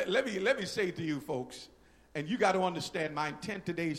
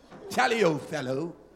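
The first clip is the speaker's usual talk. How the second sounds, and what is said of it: Put-on British accent. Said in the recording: “Spoke with a British accent.”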